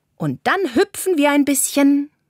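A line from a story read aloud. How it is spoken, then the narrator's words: Calling out. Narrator (German): ruft Carla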